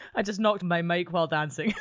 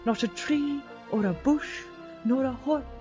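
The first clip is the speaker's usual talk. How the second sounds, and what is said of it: Put-on soothing Scottish accent. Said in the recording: “I'm going Scottish ... I'm really enjoying this accent, ... It's very soothing.”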